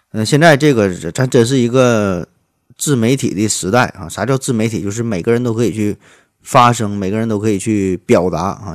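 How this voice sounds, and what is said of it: Heavy regional accent, unclear articulation. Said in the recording (Chinese): “吐字不清、口音贼重”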